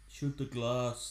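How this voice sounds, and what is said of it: Poor imitation of a film villain. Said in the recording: “That's a terrible Gruber impression by me.”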